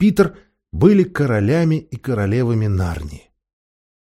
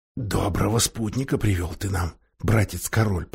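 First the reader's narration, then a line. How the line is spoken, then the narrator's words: Whispering. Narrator (Russian): прошептал Каспиан Эдмунду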